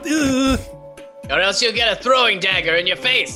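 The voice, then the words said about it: Weird put-on character voice. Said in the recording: “This is such a weird voice. How do you talk like this?”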